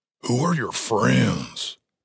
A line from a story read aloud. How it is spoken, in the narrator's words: Cooper whispered to Tim